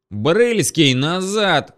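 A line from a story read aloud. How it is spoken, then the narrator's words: Yelling. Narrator (Russian): заорал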